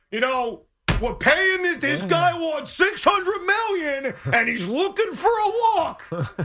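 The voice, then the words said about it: Imitation of Benigno as Yankee fan. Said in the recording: “That's my imitation of Beningo as a Yankee fan.”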